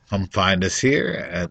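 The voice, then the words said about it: Calm, soothing radio-announcer voice. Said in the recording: “This is actually more my calm, soothing NPR voice.”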